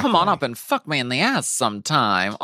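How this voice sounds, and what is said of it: Mae West impression. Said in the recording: “did Mae West for her Snatch Game impersonation. It is so fucking perfect.”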